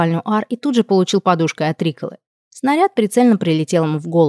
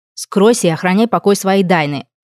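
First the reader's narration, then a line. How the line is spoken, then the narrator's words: Stern commanding sorceress. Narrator (Russian): приказала некромантка строго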